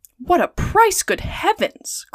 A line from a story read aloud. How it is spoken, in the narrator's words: cried Passepartout